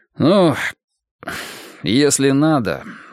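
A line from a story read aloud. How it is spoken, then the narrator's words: Sighing. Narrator (Russian): вздохнув, проговорил он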